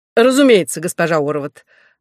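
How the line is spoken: Energetic voice. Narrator (Russian): откликнулся министр энергичным голосом человека, который перед службой пробегает рысцой 4 километра

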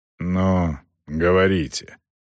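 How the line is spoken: Tired grumble. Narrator (Russian): устало пробурчал Намарти

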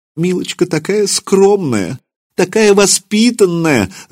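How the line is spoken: Sobbing. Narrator (Russian): рыдала Анна Романовна

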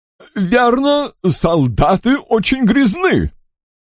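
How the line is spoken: Chuckling. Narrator (Russian): Сэр Уолтер хохотнул

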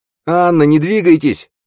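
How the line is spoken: Shouting. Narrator (Russian): крикнул Нат

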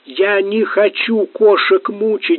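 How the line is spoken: Pleading. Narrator (Russian): взмолился Гамлет

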